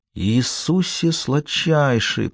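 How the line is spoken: Whispered. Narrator (Russian): прошептал он

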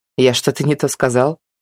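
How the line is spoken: Snort. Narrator (Russian): фыркнул Артем

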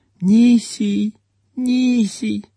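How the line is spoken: Sleepy babbling. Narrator (Russian): сонно пролепетала

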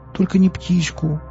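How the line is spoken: Pleading. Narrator (Russian): взмолилась Настя

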